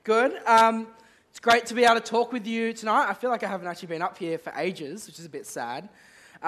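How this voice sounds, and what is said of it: Sick, strained throaty voice. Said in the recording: “I'm a bit sick and my throat is kind of dying on me. So if my voice sounds a bit weird”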